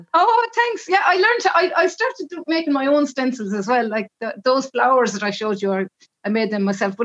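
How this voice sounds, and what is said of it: Speaks with a distinctive accent. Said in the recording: “your beautiful accent”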